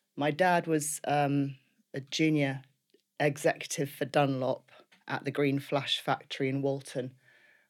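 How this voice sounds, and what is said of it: Liverpool accent. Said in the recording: “as you can no doubt hear from my accent, in Liverpool”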